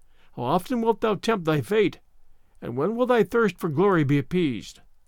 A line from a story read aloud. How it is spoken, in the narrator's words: exclaimed she